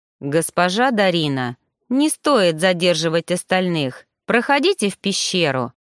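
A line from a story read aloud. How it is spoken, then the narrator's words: Stern. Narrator (Russian): строго заметил Роган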